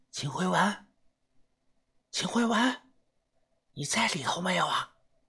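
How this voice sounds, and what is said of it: Quiet, hushed calling. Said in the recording (Chinese): “我小声的朝里边喊”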